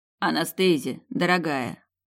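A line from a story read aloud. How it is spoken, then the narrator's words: Hoarse voice. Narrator (Russian): хрипло произнес Тирхан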